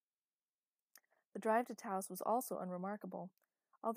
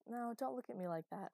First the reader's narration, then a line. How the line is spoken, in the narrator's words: Elena said